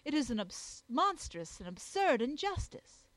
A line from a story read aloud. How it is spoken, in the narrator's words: I exclaimed